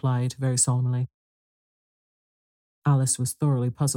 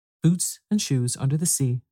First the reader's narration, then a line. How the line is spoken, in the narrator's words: the Gryphon went on in a deep voice